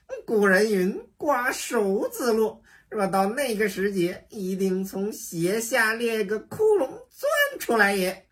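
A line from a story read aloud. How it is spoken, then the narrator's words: Laughing. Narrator (Chinese): 行者笑道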